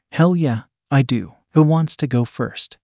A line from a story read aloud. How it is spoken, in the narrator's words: Leslie asked